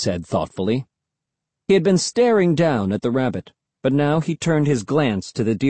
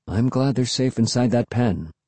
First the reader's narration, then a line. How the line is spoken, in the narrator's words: Dad said softly